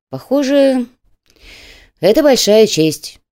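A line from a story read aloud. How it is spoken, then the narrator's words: Sighed. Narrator (Russian): вздохнул Чайка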